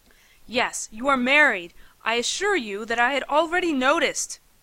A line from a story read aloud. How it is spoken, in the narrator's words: I snapped, growing unexpectedly impatient